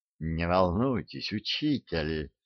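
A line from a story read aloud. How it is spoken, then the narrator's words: Soft murmuring voice. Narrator (Russian): мягко журчал голос Дарамира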